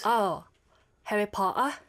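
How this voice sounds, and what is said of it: Put-on British accent. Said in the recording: “Can you do a British accent? ... Rate her British accent from 1 to 10.”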